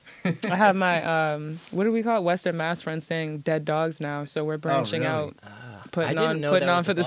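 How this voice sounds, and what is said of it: Boston accent. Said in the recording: “I feel like I have more of a Boston accent too”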